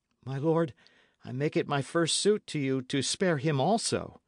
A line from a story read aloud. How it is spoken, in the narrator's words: pleaded Dick